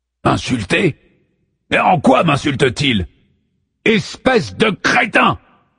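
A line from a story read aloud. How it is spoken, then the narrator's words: Thundering. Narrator (French): tonne Apollon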